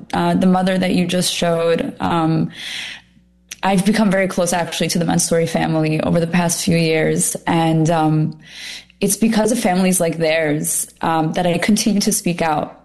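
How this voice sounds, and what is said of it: Emotional, slightly choked-up voice. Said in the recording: “I'm getting a little emotional right now.”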